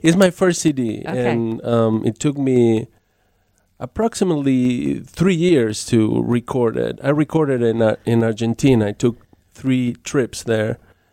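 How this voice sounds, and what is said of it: Argentine accent. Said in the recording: “you maybe can tell by the accent that ... is from Argentina.”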